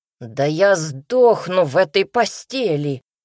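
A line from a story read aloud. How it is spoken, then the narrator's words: Brother's indignant wail. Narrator (Russian): возмущенно взвыл брат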